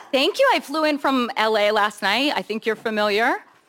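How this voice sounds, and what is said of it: Valley girl accent. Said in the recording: “Are you kidding with this Valley girl accent?”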